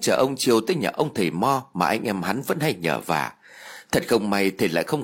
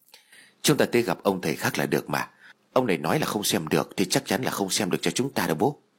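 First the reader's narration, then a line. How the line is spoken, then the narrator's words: Soft. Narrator (Vietnamese): Tín liền nói khẽ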